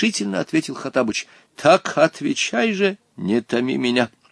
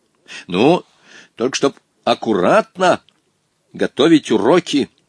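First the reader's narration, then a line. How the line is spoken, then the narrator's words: Stern reply. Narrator (Russian): строго ответил Волька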